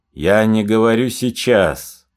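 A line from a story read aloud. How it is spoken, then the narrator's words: Displeased voice. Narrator (Russian): недовольным голосом сказал генерал Деникин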